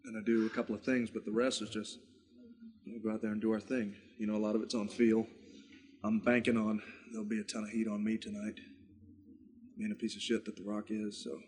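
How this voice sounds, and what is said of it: Southern US accent. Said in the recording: “Why does he have a southern accent? ... he's from Miami. He's from the south.”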